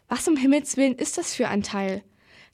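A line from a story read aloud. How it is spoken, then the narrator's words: Shocked voice. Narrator (German): sagte sie mit schockierter Stimme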